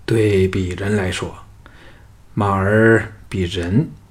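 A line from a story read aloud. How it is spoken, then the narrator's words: Flat, indifferent. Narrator (Chinese): 项少龙……淡淡的说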